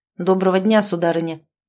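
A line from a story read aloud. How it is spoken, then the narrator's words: Cold greeting. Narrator (Russian): холодно поздоровался Измайлов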